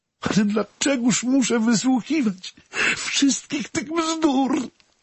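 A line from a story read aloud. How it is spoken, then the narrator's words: Sobbing. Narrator (Polish): zaszlochała Renata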